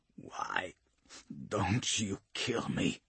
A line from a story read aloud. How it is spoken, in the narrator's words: Dantin croaks